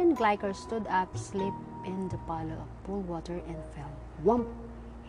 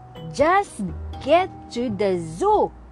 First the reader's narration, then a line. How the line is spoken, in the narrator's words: Stern bellowed